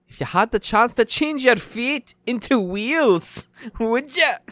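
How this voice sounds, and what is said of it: Put-on Scottish accent. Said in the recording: “I like accents ... now you're definitely doing Scottish”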